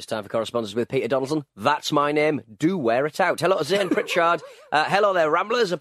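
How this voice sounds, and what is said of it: Usual voice. Nothing is said of it.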